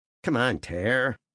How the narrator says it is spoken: Tom groaned

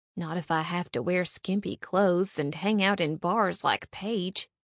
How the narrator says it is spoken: Bonnie mumbled to herself

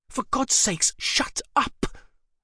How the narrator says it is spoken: Alice hissed at him

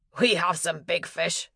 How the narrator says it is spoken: said with a chuckle

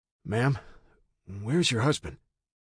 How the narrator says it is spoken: She choked up a bit

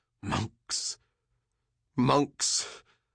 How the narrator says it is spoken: he cried

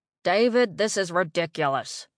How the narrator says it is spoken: Ira grumbled

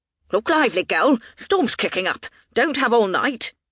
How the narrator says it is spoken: snapped

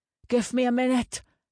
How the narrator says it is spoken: Torstein grunted

